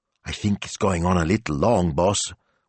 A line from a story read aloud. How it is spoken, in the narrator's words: whispered Smilzo